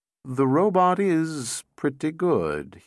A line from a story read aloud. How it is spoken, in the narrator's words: he said slowly